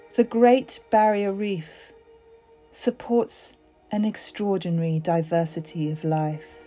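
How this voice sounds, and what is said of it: Breathy, soft reading voice. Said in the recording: “read out Wikipedia in a breathy voice”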